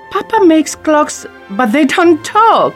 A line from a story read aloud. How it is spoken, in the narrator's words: Belle laughs